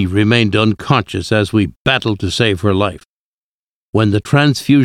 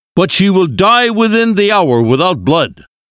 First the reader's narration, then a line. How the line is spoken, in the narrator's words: shouted